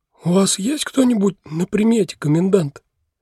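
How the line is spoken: Hoarse with agitation. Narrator (Russian): раздался чей-то сиплый от волнения голос

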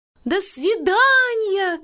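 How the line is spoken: Girl shouting. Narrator (Russian): кричала Абелин бабушке

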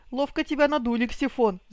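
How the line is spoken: Giggling remark. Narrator (Russian): заметила Тень, хихикая

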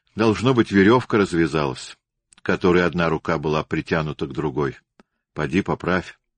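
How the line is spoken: Calm. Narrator (Russian): Ожегов спокойно произнес

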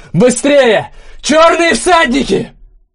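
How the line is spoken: Wild terrified yell. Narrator (Russian): Похолодев, он дико заорал

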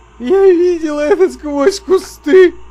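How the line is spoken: Sobbing. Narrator (Russian): рыдал он

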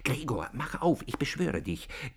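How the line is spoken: Sister whispering. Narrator (German): die Schwester aber flüsterte

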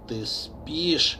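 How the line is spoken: Barely audible question. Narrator (Russian): чуть слышно спросил хозяин

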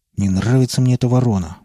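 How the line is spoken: Grumbling mutter. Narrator (Russian): буркнул Чингиз

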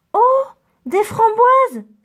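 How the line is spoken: Exclaiming. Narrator (French): s'exclame Mulot

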